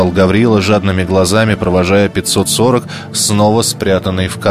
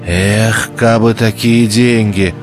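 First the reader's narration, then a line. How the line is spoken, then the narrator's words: Dejected sigh. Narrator (Russian): угнетенно вздохнул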